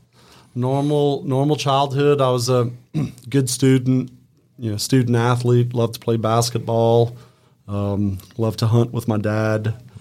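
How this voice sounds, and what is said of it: Cajun Louisiana regional accent. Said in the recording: “I can hear even in your voice, you've got that kind of accent. ... that Opelousas slang”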